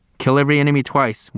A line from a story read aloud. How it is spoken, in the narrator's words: Wilkie said